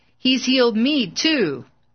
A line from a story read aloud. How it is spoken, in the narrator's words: a man standing on crutches cried out